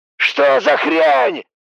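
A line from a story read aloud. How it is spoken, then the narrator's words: Yelling. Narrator (Russian): завопил Уайт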